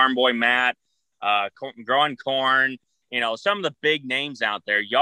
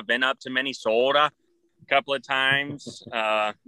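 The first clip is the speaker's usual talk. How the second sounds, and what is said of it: Put-on Minnesota accent. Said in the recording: “Is that a good accent for y'all? ... It's Minnesota. Oh yeah. You betcha kind of stuff.”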